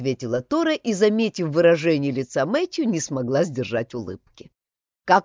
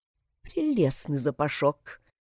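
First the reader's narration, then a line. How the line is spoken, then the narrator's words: Quiet mutter in English. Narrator (Russian): тихо, чтобы не услышал Бергер, пробормотала Тора по-английски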